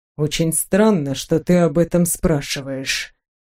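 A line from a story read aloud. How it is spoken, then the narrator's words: Muttered. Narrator (Russian): пробормотал Александр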